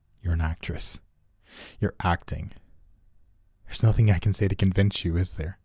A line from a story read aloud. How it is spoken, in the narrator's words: said calmly